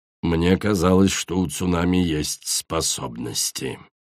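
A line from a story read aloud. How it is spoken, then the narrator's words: Grumbled. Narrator (Russian): проворчал ночной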